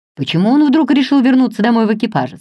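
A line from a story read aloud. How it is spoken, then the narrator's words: Plain. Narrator (Russian): сказала мисс Инграм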